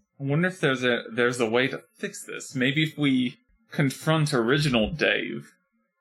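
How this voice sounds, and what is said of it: Poorly done put-on accent. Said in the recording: “my accent is fucking terrible today.”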